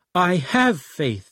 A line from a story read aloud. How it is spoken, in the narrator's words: immediately cries out, begs